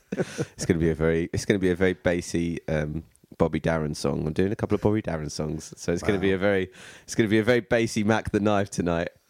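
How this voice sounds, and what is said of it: Hoarse, worn-out voice. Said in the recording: “my voice is really gone. I can hear that. ... It is, yeah.”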